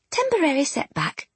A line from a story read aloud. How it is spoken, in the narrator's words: muttered